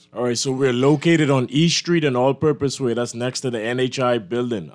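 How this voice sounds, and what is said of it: Bahamian accent. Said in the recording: “Bahamian accent”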